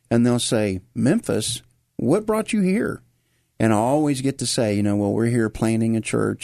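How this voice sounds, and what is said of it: Memphis Southern American accent. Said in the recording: “even our accent stands out ... no, you still have your Memphis accent”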